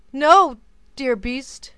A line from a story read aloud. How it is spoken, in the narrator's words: cried Beauty passionately